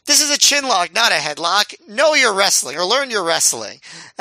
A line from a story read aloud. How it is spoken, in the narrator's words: He yells